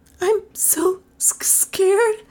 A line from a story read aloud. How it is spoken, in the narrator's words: she whimpered